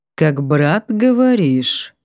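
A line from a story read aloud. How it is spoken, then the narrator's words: Deliberately calm drawl, man. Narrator (Russian): Подчеркнуто спокойно протянул мужчина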